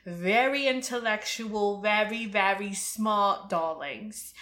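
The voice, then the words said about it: Put-on British accent. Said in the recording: “Maybe should I do British accents? You know that I shouldn't. I know that I shouldn't, but here we are.”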